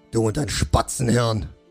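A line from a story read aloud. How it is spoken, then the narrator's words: Gruff snap. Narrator (German): schnauzte ihn Schlachtgol an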